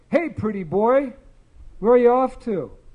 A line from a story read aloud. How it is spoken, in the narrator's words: one called out